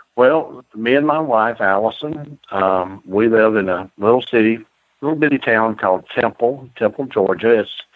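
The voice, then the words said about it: Georgia Southern twang. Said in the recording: “you'll be able to tell he's from Georgia because he's got a beautiful twang to his voice”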